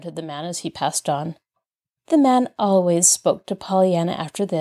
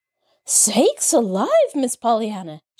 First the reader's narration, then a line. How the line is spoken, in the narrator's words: she gasped